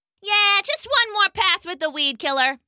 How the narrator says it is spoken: the human shouted back

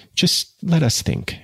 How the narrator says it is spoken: said timidly

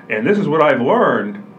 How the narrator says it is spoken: excitedly said

